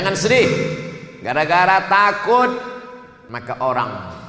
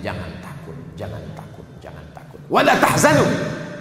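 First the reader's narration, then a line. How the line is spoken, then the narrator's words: Inner whisper. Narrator (Indonesian): malaikat berbisik dalam hatinya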